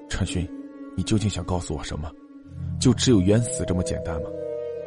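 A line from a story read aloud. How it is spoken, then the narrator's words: Murmuring to oneself. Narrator (Chinese): 不仅喃喃自语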